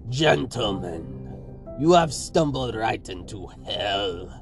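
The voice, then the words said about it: Heavy Russian accent. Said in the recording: “A heavy Russian accent called down the hall.”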